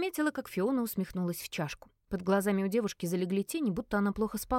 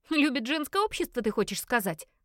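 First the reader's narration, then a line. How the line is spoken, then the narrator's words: Loud laughter. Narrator (Russian): захохотала Фиона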